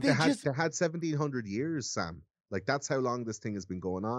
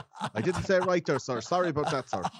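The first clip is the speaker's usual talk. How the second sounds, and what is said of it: Put-on Irish accent. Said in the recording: “it's my Irish accent there”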